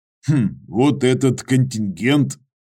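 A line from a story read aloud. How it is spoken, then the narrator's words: Skeptical grunt. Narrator (Russian): Козин хмыкнул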